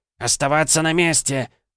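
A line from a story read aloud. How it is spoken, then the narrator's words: Shriek. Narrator (Russian): взвизгнул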